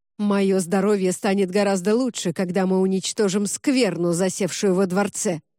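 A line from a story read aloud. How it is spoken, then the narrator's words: Barked by a monarch. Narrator (Russian): рявкнул монарх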